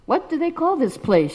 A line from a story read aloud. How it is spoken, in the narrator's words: Srila Prabhupada calmly asked